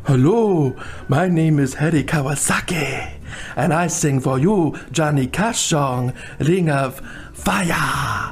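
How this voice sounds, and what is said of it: Offensive put-on Asian accent. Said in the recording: “a pretty offensive impression ... doing his Asian impression”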